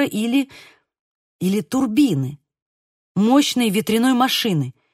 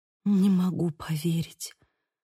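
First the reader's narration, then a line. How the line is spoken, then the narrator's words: Whisper. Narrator (Russian): прошептала Сьюзи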